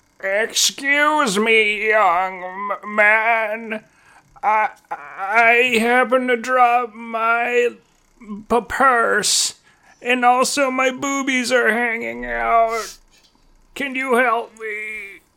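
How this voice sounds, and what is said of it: Old woman character voice. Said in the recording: “Am I the old woman or am I me?”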